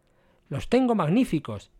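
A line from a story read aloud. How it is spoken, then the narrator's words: Exclaiming. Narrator (Spanish): exclamaba Jenkins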